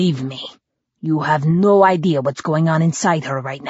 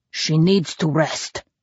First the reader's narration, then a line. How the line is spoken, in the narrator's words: he said gruffly